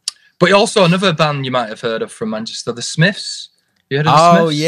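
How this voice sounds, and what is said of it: Usual voice. Nothing is said of it.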